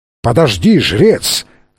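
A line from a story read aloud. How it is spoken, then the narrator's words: Thunderous yell. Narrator (Russian): громовым голосом заорал Фрэнсис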